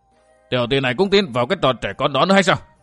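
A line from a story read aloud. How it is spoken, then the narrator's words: Angry loud question. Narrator (Vietnamese): tức giận hỏi lớn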